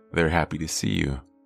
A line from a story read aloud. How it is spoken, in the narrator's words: father said